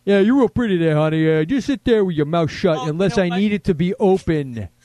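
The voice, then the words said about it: Imitates another person's voice. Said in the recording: “this is my impression of Jason dating a hot actress”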